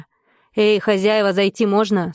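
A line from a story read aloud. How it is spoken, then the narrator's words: Loud question. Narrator (Russian): спросил громко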